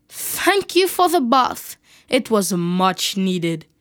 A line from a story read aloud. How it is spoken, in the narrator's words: He mocked Harry and said